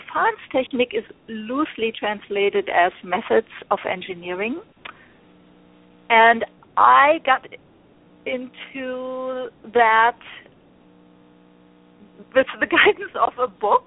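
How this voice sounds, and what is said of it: German accent. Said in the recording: “I'm from Germany. You probably hear my accent.”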